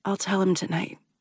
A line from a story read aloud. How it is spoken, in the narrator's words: I whisper